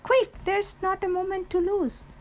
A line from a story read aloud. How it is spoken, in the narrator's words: he cried